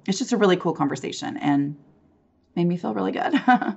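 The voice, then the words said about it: Hoarse, rough laryngitis voice. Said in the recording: “my voice sounds horrific right now ... recovering from laryngitis ... it won't sound this bad”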